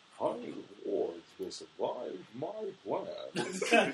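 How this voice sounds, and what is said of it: Imitates a movie villain's voice. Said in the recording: “my Bane impression.”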